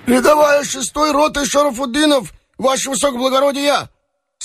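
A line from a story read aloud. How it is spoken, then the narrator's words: Earnest hoarse shout. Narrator (Russian): старательно хрипло крикнул татарин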